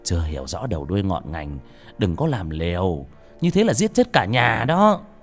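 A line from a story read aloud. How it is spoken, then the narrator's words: Stern, emphatic. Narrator (Vietnamese): Ông thầy trà gằn giọng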